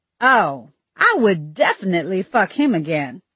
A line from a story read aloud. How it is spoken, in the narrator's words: she replied happily